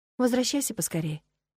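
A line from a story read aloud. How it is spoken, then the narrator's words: Quiet request. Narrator (Russian): тихо попросила я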